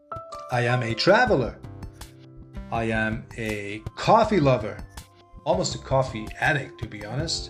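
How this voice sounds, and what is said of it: German accent. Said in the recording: “this charming accent ... I am originally from Germany, so I am a German living in Canada”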